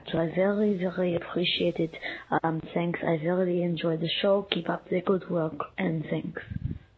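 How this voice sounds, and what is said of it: Israeli accent, slightly French-sounding. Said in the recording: “I love her voice ... sounds a little French, but maybe it's just Hebrew or Israeli. But it sounds a little bit of French ... the most beautiful Hebrew accent I've ever heard”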